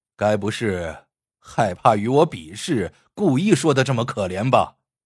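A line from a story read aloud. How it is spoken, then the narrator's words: Cold sneer. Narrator (Chinese): 王宝九冷笑道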